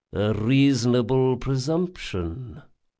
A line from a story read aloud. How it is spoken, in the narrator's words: purred Requin, growing slightly warmer in his manner